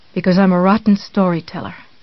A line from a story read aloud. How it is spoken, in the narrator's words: he answered